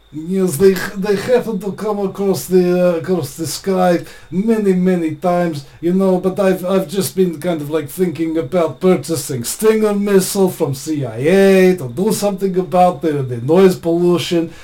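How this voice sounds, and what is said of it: Put-on Russian accent. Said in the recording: “you can answer it in your best Russian accent”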